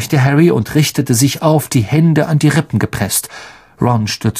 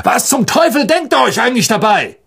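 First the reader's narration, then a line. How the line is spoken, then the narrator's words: Guard calling out. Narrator (German): ein Wachmann in der Nähe rief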